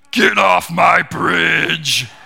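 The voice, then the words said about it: Gruff troll character voice. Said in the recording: “my very best troll impersonation”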